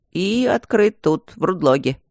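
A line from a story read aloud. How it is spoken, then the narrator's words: Grumble. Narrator (Russian): проворчал Тандаджи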